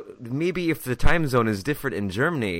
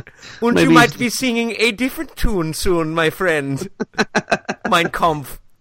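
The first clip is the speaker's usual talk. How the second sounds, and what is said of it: Poor put-on German accent. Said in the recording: “I was trying to do a German accent. I couldn't do it. ... That was a terrible, terrible German.”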